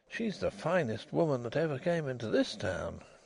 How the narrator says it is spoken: he murmured

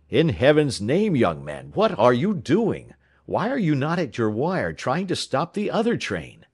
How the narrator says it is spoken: a voice exclaimed

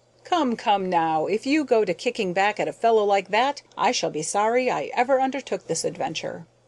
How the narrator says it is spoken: Hall immediately broke out laughing, exclaimed

